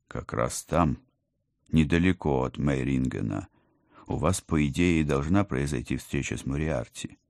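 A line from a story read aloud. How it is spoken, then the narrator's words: Soft, gentle. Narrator (Russian): мягко начал командор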